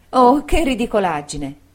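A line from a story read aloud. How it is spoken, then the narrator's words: Exclaiming. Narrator (Italian): esclamò Dora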